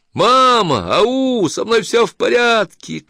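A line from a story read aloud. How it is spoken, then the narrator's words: Shouted from afar. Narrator (Russian): крикнула Эйлин издалека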